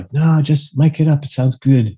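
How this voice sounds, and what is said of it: Imitated Swedish accent. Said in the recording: “you know the Swedish accent.”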